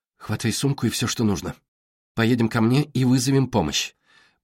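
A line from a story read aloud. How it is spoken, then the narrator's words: Whisper. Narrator (Russian): прошептала Стиле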